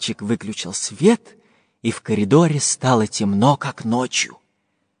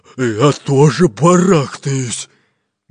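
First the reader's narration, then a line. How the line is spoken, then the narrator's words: Displeased deep bass. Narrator (Russian): недовольно пробасил Буль-Буль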